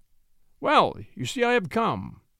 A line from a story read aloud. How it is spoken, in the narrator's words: the new arrival say cheerfully